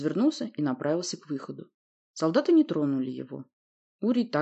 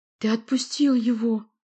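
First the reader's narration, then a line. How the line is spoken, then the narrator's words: Moaning. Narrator (Russian): простонала она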